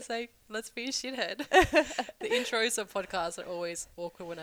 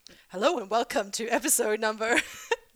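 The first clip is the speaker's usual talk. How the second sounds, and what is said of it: Mock radio announcer voice. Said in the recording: “There's like this radio voice that comes on.”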